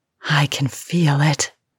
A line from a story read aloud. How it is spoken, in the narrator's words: she gasped